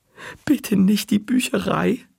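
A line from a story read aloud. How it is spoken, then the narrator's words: Pleading. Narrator (German): flehte Marty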